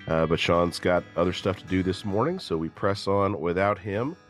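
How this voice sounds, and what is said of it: Strained, slightly hoarse voice. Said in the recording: “my voice is a little bit off today ... I sang for 3 hours last night on the end of a sinus infection ... what that's doing to the vocal cords today”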